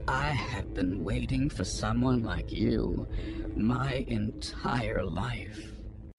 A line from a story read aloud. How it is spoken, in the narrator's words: In a trembling voice, he whispered